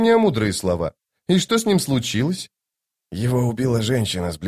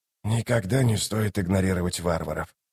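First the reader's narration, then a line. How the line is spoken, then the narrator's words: Whisper. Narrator (Russian): прошептал Ток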